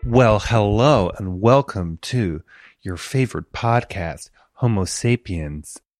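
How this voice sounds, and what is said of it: Thick put-on American accent, dubious. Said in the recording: “this really thick American accent? Although, question mark as to whether that was an American accent.”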